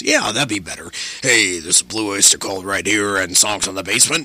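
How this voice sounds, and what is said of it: Put-on radio announcer voice. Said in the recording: “my radio voice ... changing his voice ... now I really sound like a radio guy”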